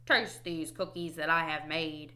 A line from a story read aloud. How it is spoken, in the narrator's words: cried Toad